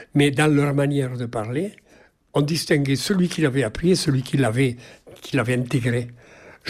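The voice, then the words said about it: Languedoc southern French accent. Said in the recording (French): “J'ai toujours gardé, si vous voulez, même parfois j'en étais étonné, un accent véritablement languedocien.”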